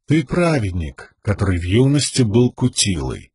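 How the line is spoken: Even-voiced continuation. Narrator (Russian): продолжил тот ровным голосом

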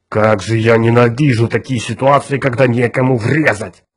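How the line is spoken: Roaring police sergeant. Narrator (Russian): проревел сержант полиции Эзра Гурни

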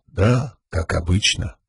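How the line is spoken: Whisper. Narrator (Russian): прошептал кто-то

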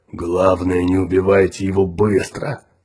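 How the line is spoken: Growl. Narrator (Russian): прорычал Тикар

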